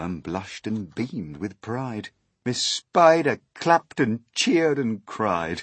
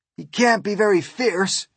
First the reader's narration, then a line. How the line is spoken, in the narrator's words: exclaimed the head of all the cops